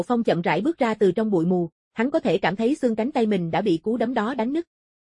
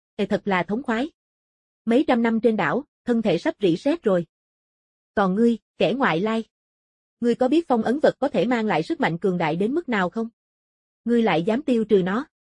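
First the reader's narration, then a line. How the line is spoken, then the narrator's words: Loud laughter. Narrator (Vietnamese): Lỗ Bán Sơn cười lớn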